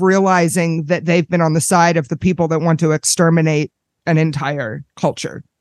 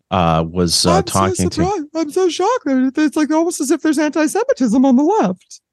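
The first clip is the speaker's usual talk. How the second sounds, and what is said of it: Imitates another person's voice. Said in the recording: “that's not the best Jake Tapper impersonation ... It was pretty close ... It was good”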